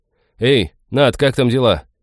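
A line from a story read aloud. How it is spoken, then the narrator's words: Loud call. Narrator (Russian): громко окликнул он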